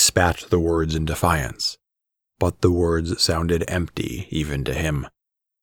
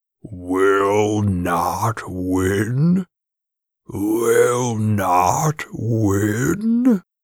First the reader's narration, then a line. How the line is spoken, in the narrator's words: Bolas's laugh rumbled through the plaza